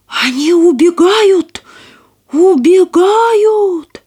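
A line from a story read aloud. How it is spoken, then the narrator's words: Shouted. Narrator (Russian): обер-унтер-генерал, крикс-комиссар, сержант Козлонок крикнул старому китайцу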